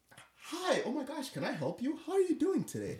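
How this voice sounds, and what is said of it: Overly cheerful customer service voice. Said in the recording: “put in a customer service voice.”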